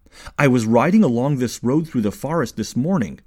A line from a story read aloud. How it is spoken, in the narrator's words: said, his voice a little stronger